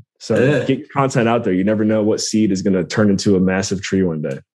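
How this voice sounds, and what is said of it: British accent. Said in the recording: “a great British accent”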